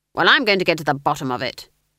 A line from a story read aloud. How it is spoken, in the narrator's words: snapped Granny